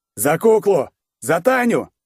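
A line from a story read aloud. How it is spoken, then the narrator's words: Shouting. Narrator (Russian): закричал он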